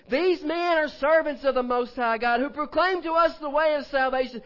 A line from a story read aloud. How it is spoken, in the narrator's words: The girl followed Paul and us and cried out, saying